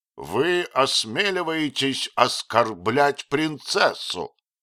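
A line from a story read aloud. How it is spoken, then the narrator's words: Thunderous shout. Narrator (Russian): громовым голосом крикнул Гондремарк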